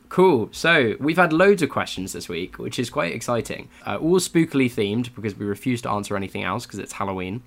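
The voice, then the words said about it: Voice affected by a cold. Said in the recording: “I have a cold,”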